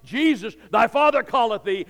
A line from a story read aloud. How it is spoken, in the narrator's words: An angel of God shouting